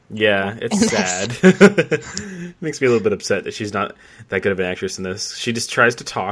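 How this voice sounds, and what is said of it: Usual voice. Nothing is said of it.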